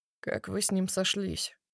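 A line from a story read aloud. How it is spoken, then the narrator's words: Quiet question. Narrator (Russian): интересуется тихонько Илья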